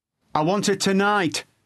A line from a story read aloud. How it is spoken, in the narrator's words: shout